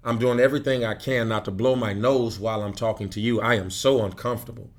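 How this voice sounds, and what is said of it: Strained, congested voice. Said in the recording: “I'm suffering from a bad case of allergies. My voice is struggling.”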